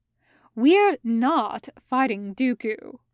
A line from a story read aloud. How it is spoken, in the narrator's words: Kenobi says firmly